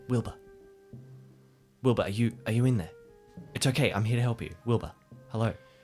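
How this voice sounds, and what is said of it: Medium-volume whisper. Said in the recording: “whisper in kind of a medium voice”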